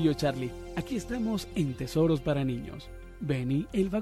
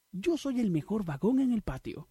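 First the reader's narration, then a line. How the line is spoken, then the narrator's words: Exclaiming. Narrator (Spanish): exclamó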